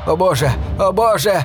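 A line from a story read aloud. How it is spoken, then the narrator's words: Shouting. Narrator (Russian): кричал один из аборигенов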